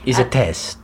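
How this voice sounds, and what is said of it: Put-on Italian accent. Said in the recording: “Why you do Italian accent?”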